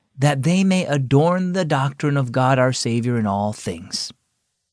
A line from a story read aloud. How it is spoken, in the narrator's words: Dad spoke softly